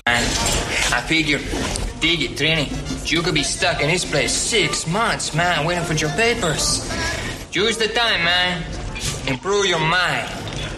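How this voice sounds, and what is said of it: Wild attempted Jamaican accent. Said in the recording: “Tubbs's attempt to do a Jamaican accent ... just wild”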